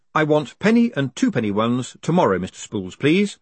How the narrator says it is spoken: said Moist firmly

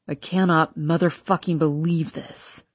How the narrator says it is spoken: he says under his breath

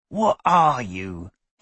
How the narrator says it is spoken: he asked again, in a hoarse voice

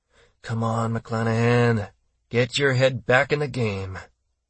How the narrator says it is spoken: Brad growled to himself

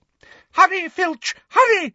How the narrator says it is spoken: shrieked Umbridge

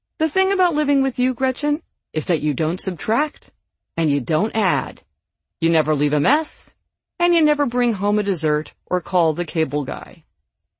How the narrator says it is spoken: one of my housemates said kindly

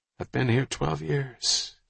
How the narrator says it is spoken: he said quietly

